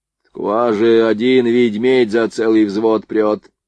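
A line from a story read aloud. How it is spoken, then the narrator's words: Grumble. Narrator (Russian): пробурчал Лепехин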